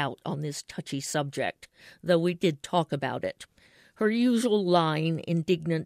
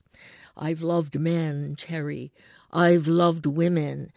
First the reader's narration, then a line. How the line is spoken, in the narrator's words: would begin with a deep sigh